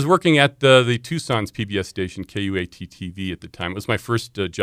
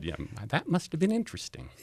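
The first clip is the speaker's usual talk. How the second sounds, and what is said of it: Imitates another person's voice. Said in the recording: “there's a good Mr. Rogers impersonation.”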